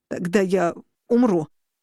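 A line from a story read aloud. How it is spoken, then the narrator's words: Broken pained rasp. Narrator (Russian): от боли прерывисто прохрипел он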